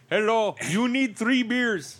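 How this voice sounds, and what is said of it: Bad put-on Indian accent. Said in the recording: “he's Indian ... That was a terrible accent. I apologize. ... It was offensive as well. ... It was terrible.”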